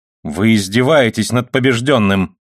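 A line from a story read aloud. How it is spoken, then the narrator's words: Angry. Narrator (Russian): сказал сердито мастер Годольфин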